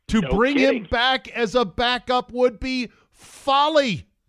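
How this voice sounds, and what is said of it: Yelling, raised angry voice. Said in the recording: “I'm not yelling. Well, am I yelling? I'm yelling now, aren't I?”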